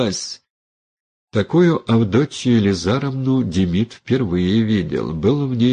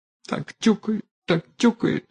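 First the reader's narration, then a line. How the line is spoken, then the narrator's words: Whimpering. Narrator (Russian): хныкала Аниска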